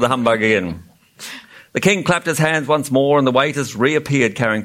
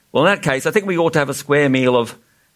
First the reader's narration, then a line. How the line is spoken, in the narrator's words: without thinking, Milo quickly suggested